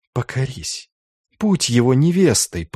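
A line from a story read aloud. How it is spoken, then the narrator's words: Whisper. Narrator (Russian): прошептала она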